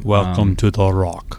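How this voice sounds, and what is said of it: Poor imitation of another person's voice. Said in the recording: “that's a bad impression.”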